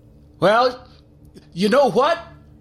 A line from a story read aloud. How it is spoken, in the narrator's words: I yelled